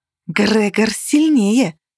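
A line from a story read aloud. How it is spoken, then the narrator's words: Hissed. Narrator (Russian): зашипела Каннель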